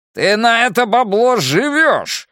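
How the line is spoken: Yelling. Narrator (Russian): заорал Джерри

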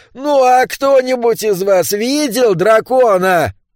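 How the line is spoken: Shout. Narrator (Russian): крикнул он

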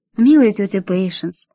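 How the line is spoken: Affectionate female voice. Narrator (Russian): сказала Мэри ласково

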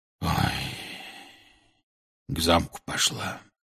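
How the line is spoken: Quiet. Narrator (Russian): тихо сообщил он

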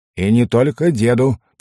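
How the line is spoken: Grumbling. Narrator (Russian): пробурчал халас

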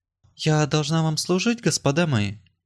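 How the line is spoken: Timid inquiry. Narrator (Russian): осведомилась она, робко, но не хмуро

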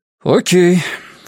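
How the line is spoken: Loud sigh. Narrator (Russian): Фабиан громко вздохнул

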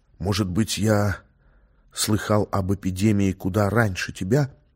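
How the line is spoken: Whispered. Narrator (Russian): прошептал ей Леонид

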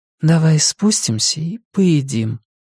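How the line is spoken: Quiet repeat. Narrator (Russian): тихо повторила Валерия

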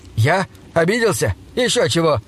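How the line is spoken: Indignant exclamation. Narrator (Russian): воскликнул он с возмущением

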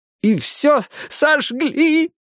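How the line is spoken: Nearly shouted. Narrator (Russian): Последнее слово он едва не выкрикнул

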